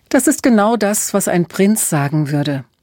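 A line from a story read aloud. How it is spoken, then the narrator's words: Laughing. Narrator (German): lachte Emma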